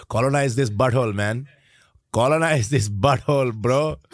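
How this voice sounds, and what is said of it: Put-on Indian accent. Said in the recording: “the Indian accents”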